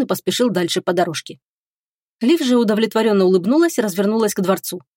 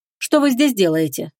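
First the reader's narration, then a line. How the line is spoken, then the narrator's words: Cold, guarded question. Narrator (Russian): спросила Агата холодно, внутренне собравшись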